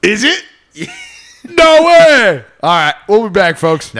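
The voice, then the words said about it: Yelling, heated loud voice. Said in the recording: “Sorry for yelling. I apologize. I'm getting heated.”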